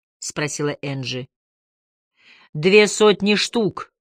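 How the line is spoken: Calm confirmation. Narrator (Russian): спокойно подтвердил Бруссард

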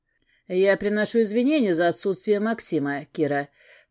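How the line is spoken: Solemn. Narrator (Russian): торжественно сказал мне Павел Олегович

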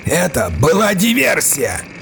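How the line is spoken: Yelled. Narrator (Russian): Завопил я

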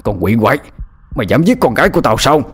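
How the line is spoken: Loud shout. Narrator (Vietnamese): miệng quát lớn

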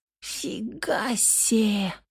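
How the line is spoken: Whisper. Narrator (Russian): прошептала Белла

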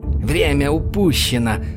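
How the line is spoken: Irritated hiss. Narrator (Russian): раздраженно прошипела она

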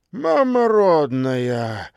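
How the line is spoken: Sudden astonished exhale. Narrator (Russian): вдруг выдохнул Духоборов

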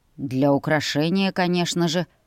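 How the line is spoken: Amused snort. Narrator (Russian): хмыкнул дракон

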